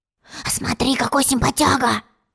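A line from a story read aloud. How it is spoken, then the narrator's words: Whisper. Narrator (Russian): шепнул тец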